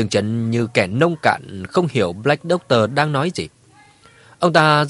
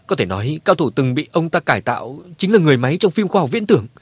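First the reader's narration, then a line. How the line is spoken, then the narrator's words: Frightened speech. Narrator (Vietnamese): Satan sợ hãi, còn nói với Dương Trấn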